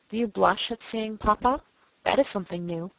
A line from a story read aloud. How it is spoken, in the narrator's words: said Monsieur de Bassompierre in a low voice, with a grave smile